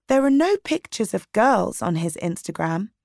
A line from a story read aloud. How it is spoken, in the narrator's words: Dina said